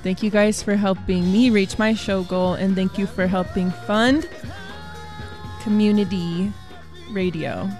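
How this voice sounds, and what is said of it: Tearful, emotional crying voice. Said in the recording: “I'm not getting emotional. ... I am crying. I'm crying of tears of happiness.”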